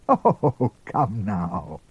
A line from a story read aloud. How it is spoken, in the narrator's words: Father Peregrine laughed